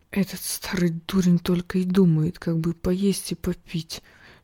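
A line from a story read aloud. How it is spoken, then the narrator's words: Whisper. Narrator (Russian): шепнул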